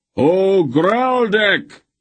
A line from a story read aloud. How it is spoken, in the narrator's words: roared in a huge voice that carried even over the noise of the crowd